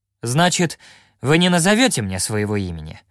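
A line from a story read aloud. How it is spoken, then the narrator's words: Sharp question. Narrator (Russian): спросил я резко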